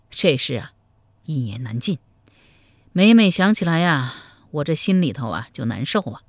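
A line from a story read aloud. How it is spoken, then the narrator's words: Long sigh. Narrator (Chinese): 赵匡胤长叹一声说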